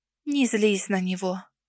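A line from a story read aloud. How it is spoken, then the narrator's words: Gentle, smiling. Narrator (Russian): Ласково улыбнулась мне Нанель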